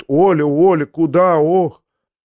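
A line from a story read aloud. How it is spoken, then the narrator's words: Elderly woman moaning. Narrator (Russian): пожилая женщина простонала ей вслед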